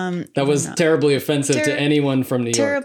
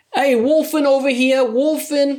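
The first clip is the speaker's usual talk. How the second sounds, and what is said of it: Exaggerated New York accent. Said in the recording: “that was probably better than mine ... Terrible New York accent”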